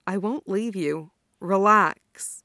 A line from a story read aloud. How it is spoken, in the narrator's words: Asuna's lips moved against his skin as he murmured